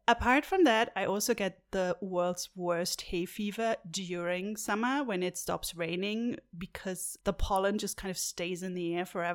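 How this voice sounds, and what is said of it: Congested voice with occasional voice breaks. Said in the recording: “my voice is a little bit all over the place sometimes. It sounds a little bit uh, congested ... Sometimes I get might get voice breaks”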